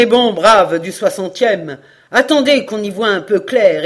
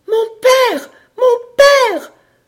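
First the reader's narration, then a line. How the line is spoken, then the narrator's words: Piercing female cry. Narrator (French): s'écria une voix perçante, une voix de femme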